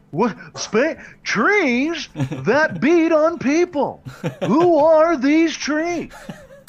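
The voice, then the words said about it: Imitates another person's voice. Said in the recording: “Why am I turning into Jerry Seinfeld? ... that was a decent impression”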